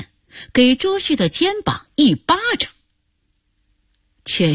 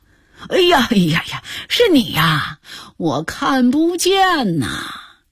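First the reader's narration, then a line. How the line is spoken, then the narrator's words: Quiet, suppressing laughter. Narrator (Chinese): 金雅琴努力地克制住自己的笑声，小声地说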